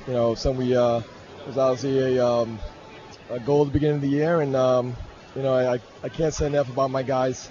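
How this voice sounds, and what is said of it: Emotional voice. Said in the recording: “I'm sorry if I'm a little emotional.”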